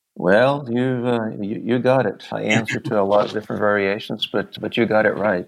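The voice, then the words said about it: American accent, slight Texas twang. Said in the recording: “American version, American accent, there we go, right? Even maybe Texas accent on there a little bit”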